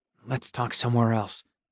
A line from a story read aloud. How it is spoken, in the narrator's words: I muttered to my friends